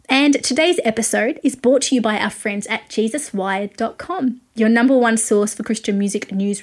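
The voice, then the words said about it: Australian accent. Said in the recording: “I am a music journalist based in Australia, if you couldn't pick it from my accent.”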